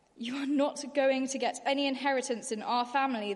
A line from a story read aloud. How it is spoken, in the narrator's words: they said